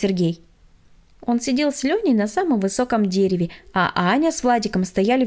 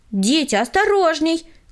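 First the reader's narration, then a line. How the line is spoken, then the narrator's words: Shouted warning. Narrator (Russian): крикнула им Таисия Михайловна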